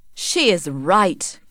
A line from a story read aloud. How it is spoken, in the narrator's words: cried Angel